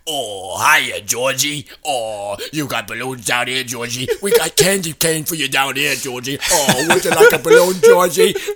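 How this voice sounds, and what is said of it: Tim Curry's Pennywise clown impression. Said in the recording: “I could do a really good impression of the old one, the Tim Curry version ... That's Tim ... That's Tim Curry”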